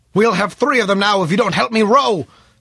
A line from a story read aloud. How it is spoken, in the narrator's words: snapped the old sailor